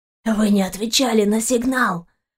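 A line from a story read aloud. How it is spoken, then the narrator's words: Man's groan. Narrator (Russian): простонал мужчина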